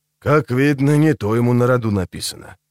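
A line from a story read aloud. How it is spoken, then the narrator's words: Grumbling from behind. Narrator (Russian): проворчал кто-то за ее спиной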